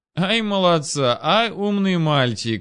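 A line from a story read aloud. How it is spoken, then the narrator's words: Mocking laughter. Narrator (Russian): издевательски рассмеялся Георгадзе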